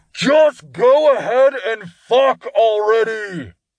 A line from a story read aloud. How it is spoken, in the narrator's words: Todd called out through a makeshift hand bullhorn